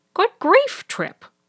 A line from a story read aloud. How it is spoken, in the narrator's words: exclaimed